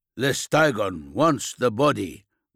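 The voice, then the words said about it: Growled uncultured barbarian accent. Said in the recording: “growled Ukteg, his uncultured barbarian accent”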